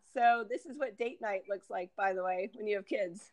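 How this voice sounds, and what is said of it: Hoarse, froggy voice. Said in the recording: “My voice sounds a little froggy. Just got a little cold”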